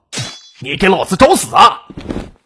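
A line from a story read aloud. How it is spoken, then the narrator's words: Angry roar. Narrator (Chinese): 怒吼道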